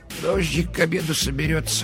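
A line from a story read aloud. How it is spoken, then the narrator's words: Muttered. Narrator (Russian): пробормотала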